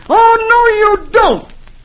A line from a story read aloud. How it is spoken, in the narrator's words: Dagwood yelling